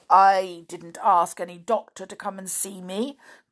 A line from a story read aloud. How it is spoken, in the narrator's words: growled Binkle, twitching his ears nervously